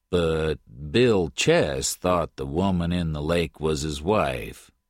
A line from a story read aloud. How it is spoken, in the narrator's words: Then Jim Patton said slowly